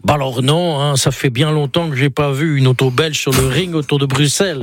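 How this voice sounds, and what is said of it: Put-on Brussels accent. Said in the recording (French): “je fais pas bien l'accent bruxellois ... Ah, c'est parfait”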